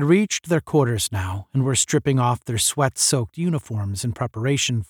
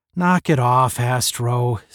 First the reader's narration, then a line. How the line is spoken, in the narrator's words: said Tom wearily